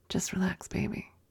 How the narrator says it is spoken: kept holding my cock and whispered in my ear

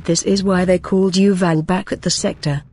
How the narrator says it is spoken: chuckled the red Switchformer

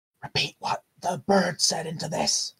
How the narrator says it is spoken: he's gonna whisper to Linley

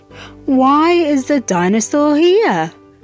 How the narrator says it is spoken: Cat groaned

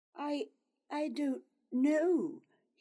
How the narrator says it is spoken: he stammered

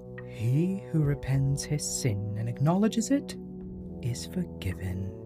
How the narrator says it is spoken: She spoke kindly to her and said

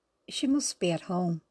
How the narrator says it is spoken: said John

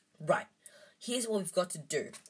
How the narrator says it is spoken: he whispered urgently

